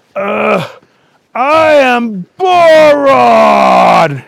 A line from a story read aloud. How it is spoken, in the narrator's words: he yelled